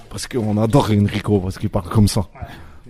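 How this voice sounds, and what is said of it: Imitates another person's voice. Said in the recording (French): “Avec l'accent encore... Excellente imitation.”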